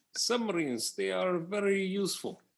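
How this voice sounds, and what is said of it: Put-on Russian accent. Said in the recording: “you're going Russian. I couldn't tell if you were doing a Hebrew accent or a Russian accent. ... you went Russian”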